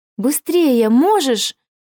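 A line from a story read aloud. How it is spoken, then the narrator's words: Excited exclamation. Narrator (Russian): в азарте воскликнула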